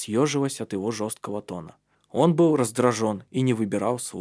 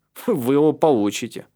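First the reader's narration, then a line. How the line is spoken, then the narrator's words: Snorting. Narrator (Russian): фыркнул Калиб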